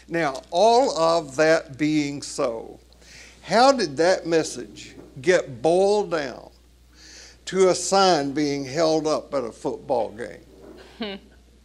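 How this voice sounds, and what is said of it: Tennessee accent. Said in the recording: “I'm really hearing your Tennessee accent. Bowled down, and earlier you said owned.”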